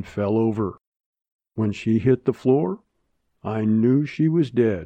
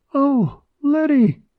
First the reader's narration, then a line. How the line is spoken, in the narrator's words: put her hand over her heart, cried out